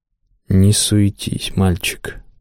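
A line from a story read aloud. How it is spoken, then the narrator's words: Mutter. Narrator (Russian): пробормотал Махиша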